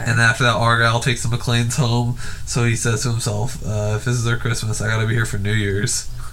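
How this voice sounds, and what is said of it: Hoarse, low-pitched voice. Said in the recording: “my voice is gone ... Y'all can hear that ... that sexy low register”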